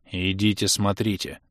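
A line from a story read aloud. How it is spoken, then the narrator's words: Gloomy commander, gritted teeth. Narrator (Russian): процедил помрачневший командир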